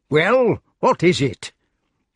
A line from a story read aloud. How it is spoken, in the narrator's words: saying in a cross voice